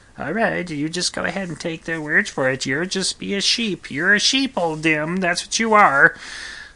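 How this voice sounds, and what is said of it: Imitates another person's voice. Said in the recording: “impression of Kale. No, it's not. It's a terrible impression of Kale. He's got a good radio voice.”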